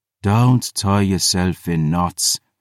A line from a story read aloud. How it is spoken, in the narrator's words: she sighed